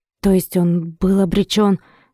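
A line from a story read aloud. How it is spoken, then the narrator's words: Nervous strained. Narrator (Russian): нервно выдавил Димка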